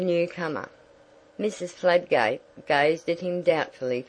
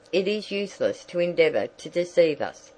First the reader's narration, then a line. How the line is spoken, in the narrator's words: said Mrs